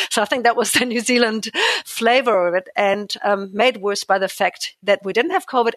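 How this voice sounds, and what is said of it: German accent. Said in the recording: “I come from Germany originally, as you can probably tell from my weird name and accent”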